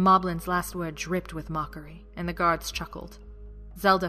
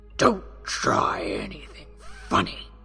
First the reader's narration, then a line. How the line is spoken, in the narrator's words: he growled